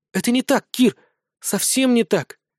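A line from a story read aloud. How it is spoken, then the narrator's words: Quiet resolved whisper. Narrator (Russian): тихо прошептала она, наконец решившись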